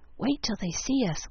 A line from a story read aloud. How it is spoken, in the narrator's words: whispered Demi